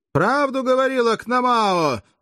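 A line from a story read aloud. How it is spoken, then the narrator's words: Loud yell. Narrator (Russian): заорал Каст, начальник 14-го легиона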